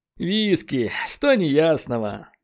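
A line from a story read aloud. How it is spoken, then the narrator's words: Weary sigh. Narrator (Russian): Вздохнул Леджер ... недетскую усталость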